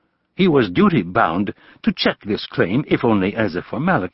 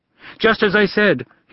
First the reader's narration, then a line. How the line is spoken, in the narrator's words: shouted